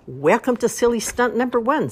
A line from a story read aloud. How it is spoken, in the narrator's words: said Mrs